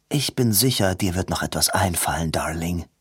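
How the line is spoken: Quiet. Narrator (German): sagte leise

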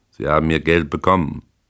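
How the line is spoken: Cold. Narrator (German): fuhr er kalt fort

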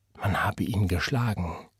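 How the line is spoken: Whisper. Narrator (German): flüsterte zu

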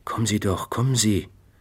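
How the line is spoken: Almost begging. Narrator (German): sagte er mit fast bettelnder Stimme

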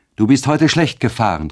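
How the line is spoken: Exclaimed. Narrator (German): rief sie aus

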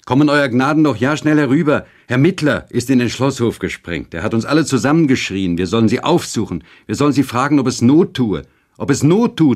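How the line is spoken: Calling after. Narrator (German): rief er uns nach

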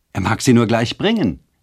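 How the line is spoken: Calling out. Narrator (German): rief Luciane

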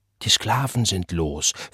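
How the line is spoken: Whispered. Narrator (German): flüsterte man in der Hütte und an der Herrenpforte

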